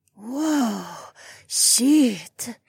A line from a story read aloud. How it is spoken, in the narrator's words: Heiwan gasped